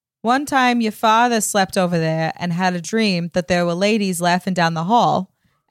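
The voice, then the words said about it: Put-on New England accent. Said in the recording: “in a beautiful New England accent ... it's a hard accent to get right. But I'll try. ... you're doing a great job”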